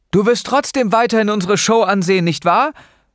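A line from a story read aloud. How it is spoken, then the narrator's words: Calling out. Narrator (German): rief Noah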